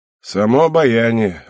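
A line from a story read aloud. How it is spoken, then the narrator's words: Sighing. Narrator (Russian): вздохнула Кинари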